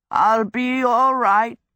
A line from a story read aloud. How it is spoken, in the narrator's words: he croaked